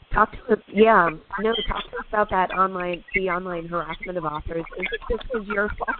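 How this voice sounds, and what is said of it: Sick, under-the-weather voice. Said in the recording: “My voice is, I'm a little under the weather.”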